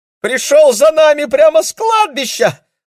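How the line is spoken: Shriek. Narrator (Russian): взвизгнула Кира

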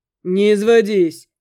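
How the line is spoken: Chuckling. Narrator (Russian): хохотнул Макс

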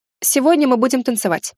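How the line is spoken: Hurried. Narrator (Russian): торопливо сказала я

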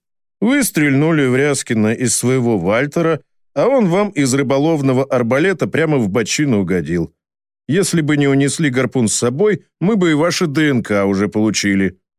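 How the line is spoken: Satisfied snort. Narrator (Russian): довольно хмыкнул Фомичев

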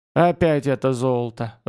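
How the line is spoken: Sighing. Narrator (Russian): вздохнула черная ведьма

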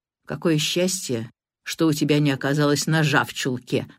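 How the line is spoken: Plain. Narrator (Russian): сказал Алекс

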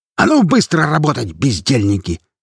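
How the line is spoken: Barked. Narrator (Russian): рявкнул Фрар

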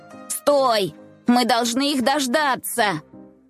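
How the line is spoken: Group shouting. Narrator (Russian): закричали они

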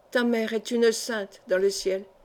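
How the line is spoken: Murmuring. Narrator (French): murmura-t-il

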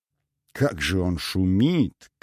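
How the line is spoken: Whiny drawl. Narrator (Russian): капризно протянула Этель

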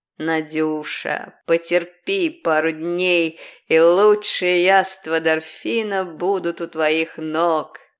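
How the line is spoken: Mysterious promising voice. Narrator (Russian): пообещал Ариати загадочным голосом

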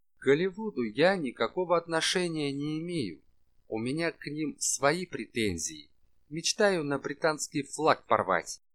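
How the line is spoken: Clipped, emphatic. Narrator (Russian): отчеканил Габриэль

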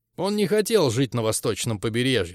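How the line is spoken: Plain. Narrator (Russian): сказал он мне

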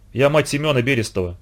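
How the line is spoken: Plain. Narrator (Russian): сказала

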